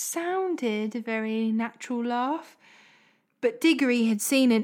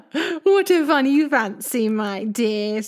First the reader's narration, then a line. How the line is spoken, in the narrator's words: said Uncle Andrew with a laugh